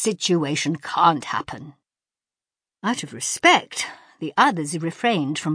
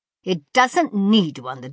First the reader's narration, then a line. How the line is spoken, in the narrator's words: the doctor snapped